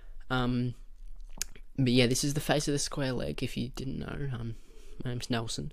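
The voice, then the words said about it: Australian accent. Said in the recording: “as you can tell from my voice, I am very much an Australian”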